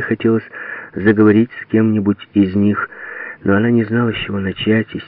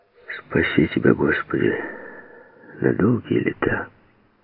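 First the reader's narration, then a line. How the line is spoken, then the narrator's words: Quiet old man. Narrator (Russian): Тихо сказал старик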